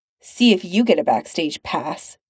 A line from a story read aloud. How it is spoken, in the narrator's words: Pete grumbles